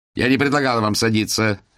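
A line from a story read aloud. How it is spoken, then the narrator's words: Barking. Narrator (Russian): рявкнул вице-директор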